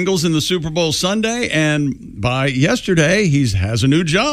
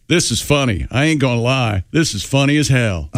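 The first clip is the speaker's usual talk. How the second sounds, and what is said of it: Imitates another person's voice. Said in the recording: “I like that you're doing his voice.”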